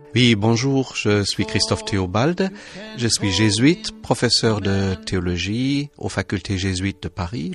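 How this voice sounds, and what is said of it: Charming German accent in French. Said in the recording (French): “je suis d'origine allemande ... votre charmant accent”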